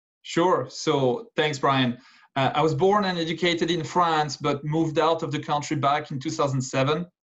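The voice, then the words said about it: Slight foreign accent. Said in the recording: “you have a bit of an accent, and I'm no expert, but I do believe that's not Ohio”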